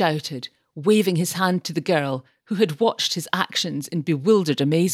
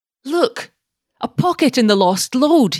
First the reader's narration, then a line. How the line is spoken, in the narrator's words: cried